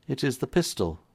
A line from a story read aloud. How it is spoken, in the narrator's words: said Combs quietly